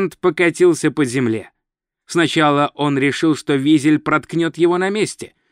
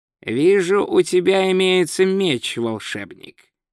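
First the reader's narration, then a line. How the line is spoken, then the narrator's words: Calm. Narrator (Russian): спокойно сказал вор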